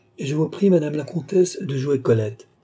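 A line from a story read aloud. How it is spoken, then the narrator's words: Exclaiming. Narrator (French): s'écria le comte d'Artois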